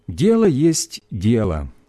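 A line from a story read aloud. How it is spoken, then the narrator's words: Plain. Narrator (Russian): сказала она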